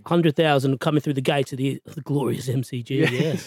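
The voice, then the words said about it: Good put-on Australian accent. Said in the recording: “Good accent. ... He has a good Australian accent”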